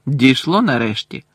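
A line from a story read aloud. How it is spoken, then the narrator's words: Cold reply. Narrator (Ukrainian): холодно відповів Гаррі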